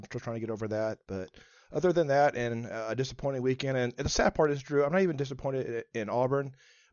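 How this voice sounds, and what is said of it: Voice sounds congested from a cold. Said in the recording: “I've got a little bit of a cold, so if my voice sounds a little bit different”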